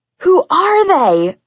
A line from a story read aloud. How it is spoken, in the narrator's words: I shrieked